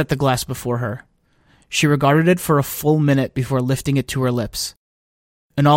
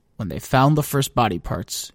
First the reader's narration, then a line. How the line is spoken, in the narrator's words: she murmured